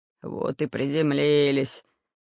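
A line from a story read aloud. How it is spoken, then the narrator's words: Muttering. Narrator (Russian): пробормотал Бульбуль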